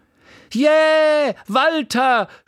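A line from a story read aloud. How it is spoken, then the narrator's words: Woman shouting from audience. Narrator (German): schrie eine Frau im Publikum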